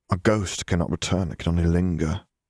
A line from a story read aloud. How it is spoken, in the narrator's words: Harry sighed